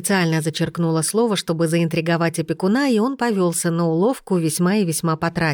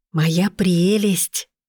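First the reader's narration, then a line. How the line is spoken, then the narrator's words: Breathless exhale. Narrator (Russian): выдохнула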